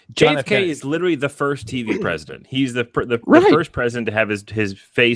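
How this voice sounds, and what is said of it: Usual voice. Nothing is said of it.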